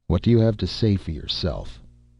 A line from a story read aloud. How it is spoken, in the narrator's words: asked gently